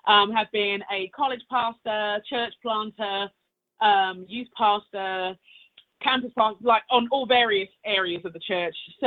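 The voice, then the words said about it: British accent. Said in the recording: “I do love your accent. It's awesome. ... British ... accent.”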